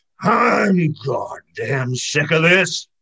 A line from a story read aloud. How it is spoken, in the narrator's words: A thundery, rumbly voice remarked